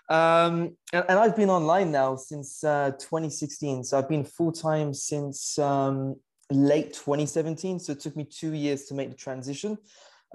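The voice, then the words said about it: British accent. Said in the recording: “I'm originally from the UK. You can probably tell from the accent.”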